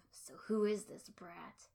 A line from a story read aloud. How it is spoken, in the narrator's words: the low mutter of